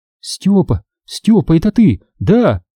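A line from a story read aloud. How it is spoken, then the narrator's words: Excited whisper. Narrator (Russian): взволнованно зашептала Катя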